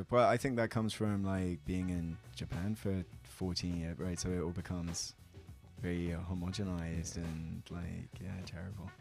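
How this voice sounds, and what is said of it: Mild British received pronunciation accent. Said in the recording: “you're from the UK ... I didn't pick up on the accent immediately. You don't have like a very strong. ... receive pronunciation BBC style voice ... you don't have a regional accent so much”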